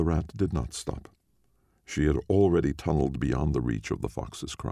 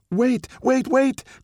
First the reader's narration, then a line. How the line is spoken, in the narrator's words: cried the fox